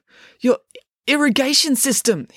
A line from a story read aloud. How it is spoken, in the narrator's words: stammered